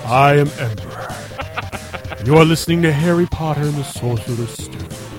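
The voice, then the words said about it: Professional radio announcer voice. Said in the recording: “go do the professional voice. ... Radio voice.”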